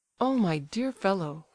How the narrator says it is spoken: cried Evgeny, warmly, with real sorrow in his voice

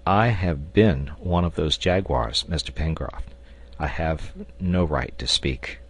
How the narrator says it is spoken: Ayrton replied in a humble tone

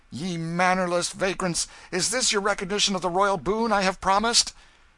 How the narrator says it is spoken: He said more, with angry voice

